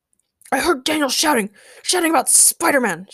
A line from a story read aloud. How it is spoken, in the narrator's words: shouted J